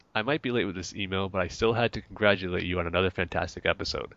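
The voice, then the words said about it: Nasal, deep congested voice. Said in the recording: “my nasally deep voice ... from this cold”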